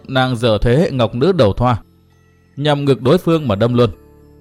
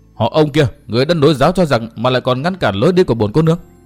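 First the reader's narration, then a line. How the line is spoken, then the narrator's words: Loud shout. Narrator (Vietnamese): mồm thì quát lớn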